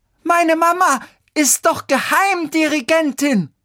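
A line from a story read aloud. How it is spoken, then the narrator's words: Girl shouting. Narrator (German): schrie jetzt das Mädchen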